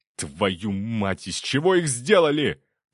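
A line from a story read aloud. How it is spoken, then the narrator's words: Strained, through gritted teeth. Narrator (Russian): процедил Левинский, уклоняясь от очередной атаки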